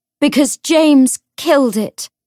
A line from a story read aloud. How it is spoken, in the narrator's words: Cordelia said as loudly as she could